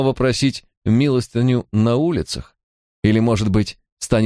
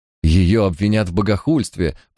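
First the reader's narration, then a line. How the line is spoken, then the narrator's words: Moaning. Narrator (Russian): простонал он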